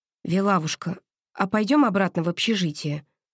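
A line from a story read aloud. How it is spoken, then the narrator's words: Tender call. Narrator (Russian): ласково позвала я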